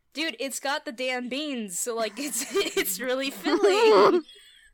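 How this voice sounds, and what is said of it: Occasional Southern American accent. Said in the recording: “once in a while southern accent”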